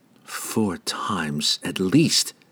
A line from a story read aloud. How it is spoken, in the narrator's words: she whispered to herself